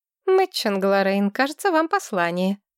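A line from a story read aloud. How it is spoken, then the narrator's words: Wry snort. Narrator (Russian): хмыкнула Маргарет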